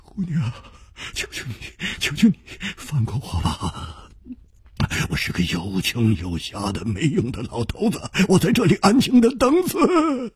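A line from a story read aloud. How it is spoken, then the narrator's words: Trembling voice. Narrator (Chinese): 孙学普颤声说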